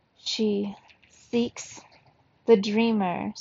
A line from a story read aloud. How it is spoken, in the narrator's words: Senora Mata said in a hollow voice